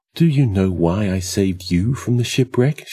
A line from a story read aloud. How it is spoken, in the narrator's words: asked